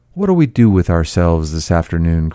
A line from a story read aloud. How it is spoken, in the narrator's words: cried Daisy